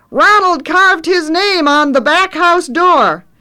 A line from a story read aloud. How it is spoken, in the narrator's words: Trevor shouts into Grandpa's ear